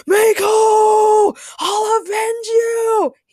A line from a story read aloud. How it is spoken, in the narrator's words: screamed